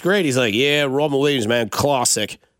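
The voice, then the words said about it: Attempted Australian accent. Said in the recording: “that's my best I could do for an Australian accent.”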